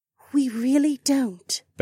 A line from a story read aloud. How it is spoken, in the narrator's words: Becca said in a much gentler tone